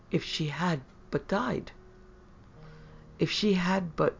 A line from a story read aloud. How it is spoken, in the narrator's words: the other spoke gently